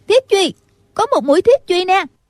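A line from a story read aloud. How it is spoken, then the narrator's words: Shouting. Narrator (Vietnamese): Lại có một người la lên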